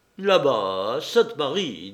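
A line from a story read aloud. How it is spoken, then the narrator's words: Harsh. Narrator (French): dit Marescal durement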